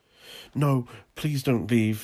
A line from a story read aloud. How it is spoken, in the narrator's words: he begged, raising his voice